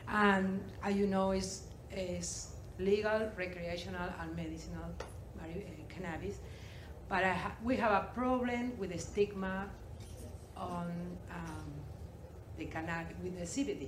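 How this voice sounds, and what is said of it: Uruguayan accent in English. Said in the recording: “I'm sorry for my accent. I'm from Uruguay.”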